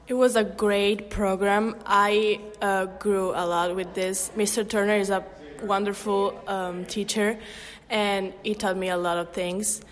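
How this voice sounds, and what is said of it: Non-American, Italian accent. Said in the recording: “that's not a regular American accent I'm hearing”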